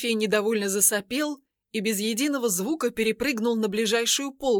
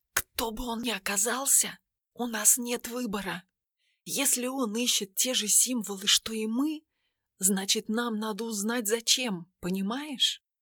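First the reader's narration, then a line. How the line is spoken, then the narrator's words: Silent mouthed whisper. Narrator (Russian): Одними губами она прошептала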